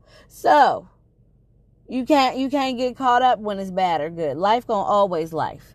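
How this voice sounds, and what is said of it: Strained, fading voice. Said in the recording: “I'm losing my voice. Like I said, I've been doing a whole lot of talking”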